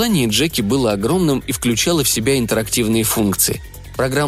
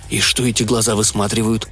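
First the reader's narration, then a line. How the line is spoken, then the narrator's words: Quiet question. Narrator (Russian): тихо спросил он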